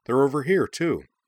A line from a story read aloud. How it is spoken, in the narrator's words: she cried